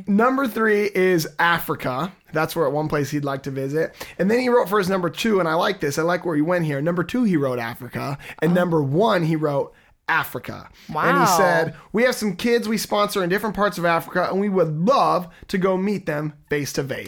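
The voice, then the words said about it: Put-on accent. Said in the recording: “I'll cut the accent. All right. I'll cut it. ... I thought you were going to drop the accent.”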